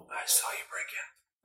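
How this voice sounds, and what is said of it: Whispering. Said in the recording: “Why are you whispering,”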